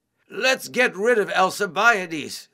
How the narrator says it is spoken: shouted

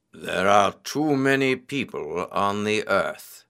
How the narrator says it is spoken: he said gloomily

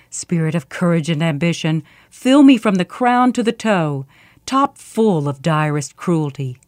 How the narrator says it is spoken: she growled to herself

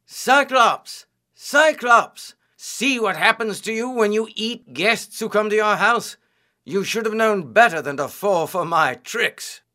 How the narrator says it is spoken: Odysseus began to shout

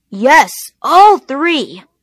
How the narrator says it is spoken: The farmer yelled back

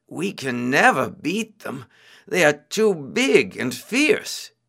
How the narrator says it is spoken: They began to murmur among themselves

